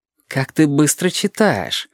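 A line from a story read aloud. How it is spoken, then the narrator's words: Ingratiating. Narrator (Russian): сказал вкрадчиво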